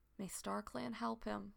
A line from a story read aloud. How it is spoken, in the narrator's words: Thornclaw murmurs